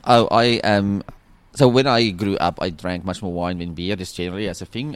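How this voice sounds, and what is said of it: South African accent. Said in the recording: “that is not a local Australian accent ... South African.”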